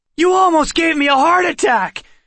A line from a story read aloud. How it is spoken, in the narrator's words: Seth shouted